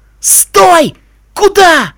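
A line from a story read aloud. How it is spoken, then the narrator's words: Desperate yell. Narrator (Russian): отчаянно заорал потрошитель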